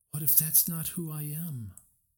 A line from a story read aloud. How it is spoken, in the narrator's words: Her voice wavered as all the fears of disappointing her family and people churned in her stomach